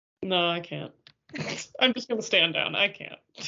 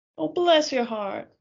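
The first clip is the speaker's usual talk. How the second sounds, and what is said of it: Poor attempt at Southern US accent. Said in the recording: “If you gave me, like, a sentence to say in Southern ... No, that wasn't good.”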